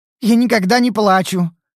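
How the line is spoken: Angry. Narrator (Russian): сердито сказала она

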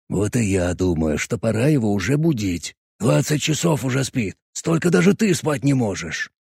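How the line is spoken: Whispered. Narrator (Russian): Шепотом сказал Боб

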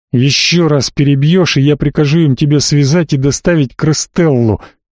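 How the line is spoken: Hissing. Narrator (Russian): прошипел Катил

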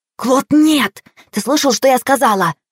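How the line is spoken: Panicky hiss. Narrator (Russian): прошипела Мэри, борясь с подступающей паникой

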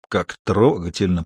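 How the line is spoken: Grumbled. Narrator (Russian): проворчал он

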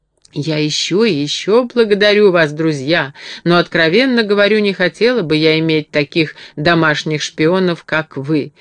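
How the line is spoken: Laughing. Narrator (Russian): рассмеялась Энни

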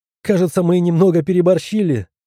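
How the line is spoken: Laughing remark. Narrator (Russian): заметила, смеясь

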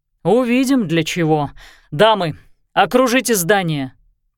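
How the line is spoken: Shout. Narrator (Russian): крикнул он

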